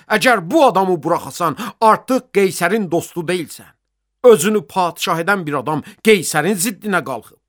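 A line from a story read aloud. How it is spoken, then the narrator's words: Shouting. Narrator (Azerbaijani): qışqırıb deyirdilər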